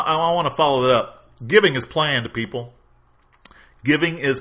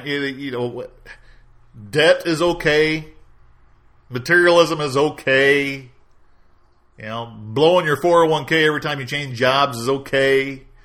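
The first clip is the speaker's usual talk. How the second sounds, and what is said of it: Sarcastic delivery. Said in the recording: “I say that sarcastically.”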